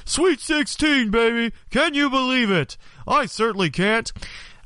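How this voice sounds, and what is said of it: Poor Dick Vitale impression. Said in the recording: “that horrible Dick Vitale impersonation”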